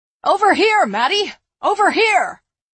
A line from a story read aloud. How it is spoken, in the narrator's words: The shouts came from all directions